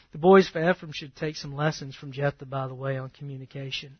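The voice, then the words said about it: Mild Southern accent. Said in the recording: “I'm going to be a Southern guy. Period. Now, I don't have a twang like some folk, but I still got it. My speech betrays me.”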